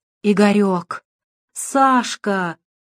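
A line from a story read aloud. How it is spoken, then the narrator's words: Moaning. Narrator (Russian): застонал Луготинцев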